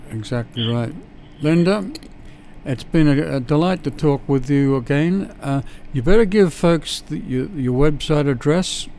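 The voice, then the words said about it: Australian accent. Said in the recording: “better than my Australian accent”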